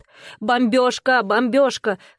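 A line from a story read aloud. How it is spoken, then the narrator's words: Shouted. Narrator (Russian): крикнул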